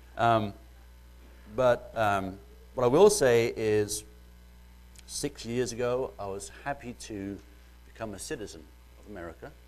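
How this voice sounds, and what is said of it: Mellowed British accent. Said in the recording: “excuse my British accent ... I've been here 12 years now, and it's mellowed some ... You sound American now.”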